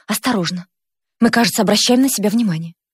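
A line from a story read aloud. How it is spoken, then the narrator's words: Hurried whisper. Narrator (Russian): она шепнула торопливо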